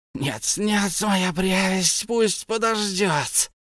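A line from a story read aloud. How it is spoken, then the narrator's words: Hissed. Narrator (Russian): прошипел Голлум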